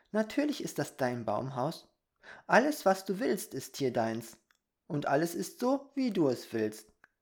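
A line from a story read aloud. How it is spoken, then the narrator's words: Little fairy giggling. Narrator (German): erklärte die kleine Fee kichernd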